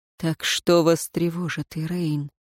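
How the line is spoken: Asked softly. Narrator (Russian): мягко спросил Динталь

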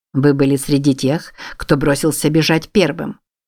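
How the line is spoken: Cold, commanding. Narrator (Russian): холодно произнес генерал

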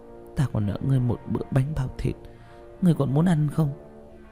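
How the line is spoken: Soft murmur. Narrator (Vietnamese): Tạ Vũ Tình môi đỏ khẽ mở lẩm bẩm

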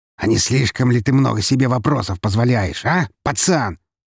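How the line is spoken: Barking shout. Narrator (Russian): рявкнул Громила

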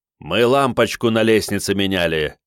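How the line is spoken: Instant bark. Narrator (Russian): сходу рявкнул Игорь

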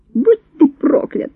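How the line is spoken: Shriek. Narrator (Russian): взвизгнула

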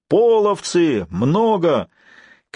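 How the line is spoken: Shouting from a wall. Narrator (Russian): со стены закричал дружинник

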